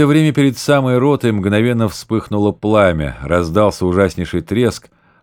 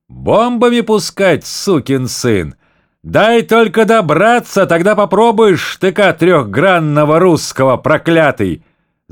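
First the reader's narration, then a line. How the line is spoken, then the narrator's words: Very loud. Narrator (Russian): заговорил ротный командир так громко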